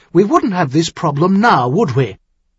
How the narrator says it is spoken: Elaine Maguire said harshly

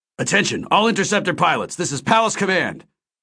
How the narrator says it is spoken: Admiral Vance's familiar voice barked over the comlink

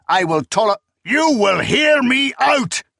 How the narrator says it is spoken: Zynemus roared

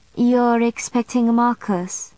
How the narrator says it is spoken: she observed sadly

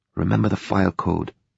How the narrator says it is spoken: she muttered

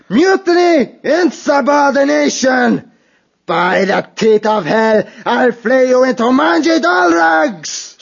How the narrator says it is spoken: Skullface yelling with pain

